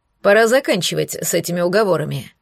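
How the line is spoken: Displeased stern man. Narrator (Russian): недовольно и строго проговорил второй мужчина

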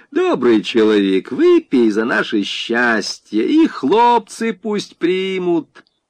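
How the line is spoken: Asking. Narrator (Russian): жених попросил

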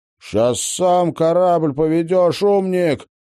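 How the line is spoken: Insolent, insubordinate. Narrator (Russian): вопиюще нарушил субординацию Винни

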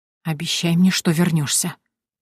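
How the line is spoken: Whispered. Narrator (Russian): прошептала я

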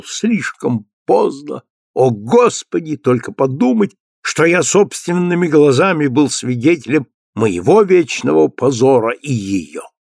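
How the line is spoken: Exclaiming. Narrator (Russian): лордом Фрэнсисом, когда он воскликнул

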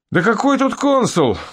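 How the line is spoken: Joyful amazement. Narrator (Russian): радостно изумился полковник

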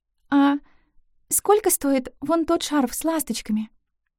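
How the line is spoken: Barely audible breath. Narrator (Russian): едва слышно выдохнула

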